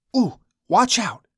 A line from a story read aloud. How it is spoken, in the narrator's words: hisses